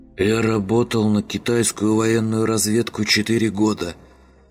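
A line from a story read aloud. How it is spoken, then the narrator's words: Hoarse wheezing voice. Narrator (Russian): прохрипело нечто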